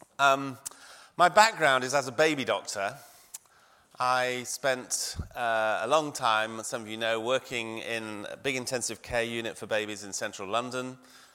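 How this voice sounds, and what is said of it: Croaky, hoarse voice. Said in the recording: “my voice is a bit croaky”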